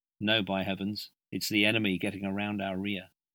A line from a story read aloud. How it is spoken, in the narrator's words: said in a subdued voice